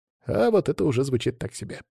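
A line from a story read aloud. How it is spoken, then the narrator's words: Boy grumbling. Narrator (Russian): буркнул пацан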